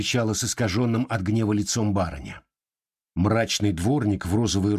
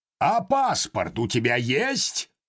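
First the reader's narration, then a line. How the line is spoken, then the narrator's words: Sudden menacing roar. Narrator (Russian): Вдруг грозно взревел доктор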